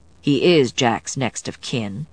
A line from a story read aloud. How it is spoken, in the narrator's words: Chris replied calmly